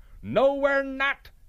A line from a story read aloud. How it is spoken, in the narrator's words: they roared back